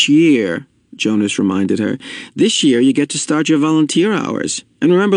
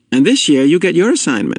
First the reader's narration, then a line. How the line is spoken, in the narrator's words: she said to Jonas in an excited voice